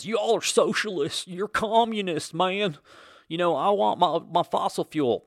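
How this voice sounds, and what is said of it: Put-on American redneck accent. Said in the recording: “the redneck portion of America looks and says ... that accent is dead on”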